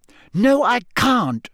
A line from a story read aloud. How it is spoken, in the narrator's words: snapped Hermione